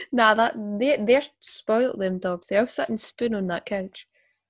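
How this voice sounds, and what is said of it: Scottish accent. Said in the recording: “I love your it, accent... You're so Scottish.”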